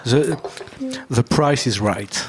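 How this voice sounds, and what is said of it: Put-on English-speaking accent. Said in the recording (French): “avec mon superbe accent”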